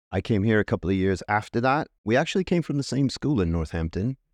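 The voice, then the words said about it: American accent. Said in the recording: “I'm picking up a bit of an accent there ... I'm from Tucson, Arizona, in the U.S. ... the accent”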